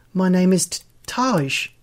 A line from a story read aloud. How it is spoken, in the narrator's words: stutters